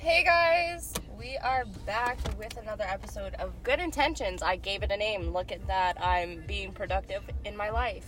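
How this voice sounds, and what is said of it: Congested, stuffy-nosed voice. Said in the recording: “I sound super congested.”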